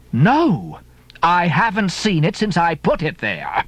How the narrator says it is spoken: exclaimed

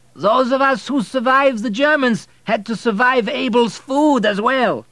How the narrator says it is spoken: Someone who had drunk a little too much shouted from the back of the room

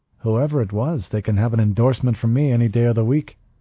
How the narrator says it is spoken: Ortega said cheerfully

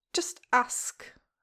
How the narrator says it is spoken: Huck snaps

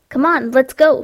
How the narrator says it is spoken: shouted Matt

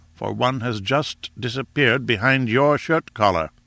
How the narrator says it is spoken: said Summerlee grimly

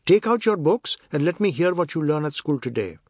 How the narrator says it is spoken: Deuti said sternly

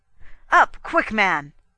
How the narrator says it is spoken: I cried

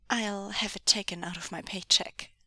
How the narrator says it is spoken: Meng Yao said dryly

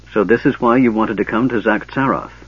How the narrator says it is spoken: said Caramon

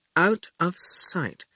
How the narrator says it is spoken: Quentin murmured

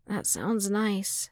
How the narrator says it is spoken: Skywalker murmured, longing in his voice

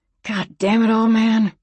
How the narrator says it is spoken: she growled

